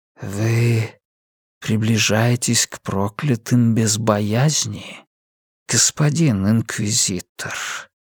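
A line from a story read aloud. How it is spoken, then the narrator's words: Rustling quiet voice. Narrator (Russian): спросил незнакомец шелестящим тихим голосом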